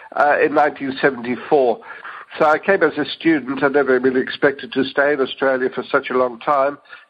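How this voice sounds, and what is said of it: Dutch accent. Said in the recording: “I'm originally from Holland. You can detect my accent.”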